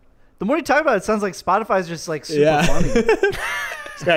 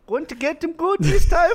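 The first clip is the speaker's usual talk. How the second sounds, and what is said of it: Put-on Swedish accent, sounds Indian. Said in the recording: “Is that your Swedish accent? ... it's dangerously close to an Indian accent ... That's not how Swedish talks.”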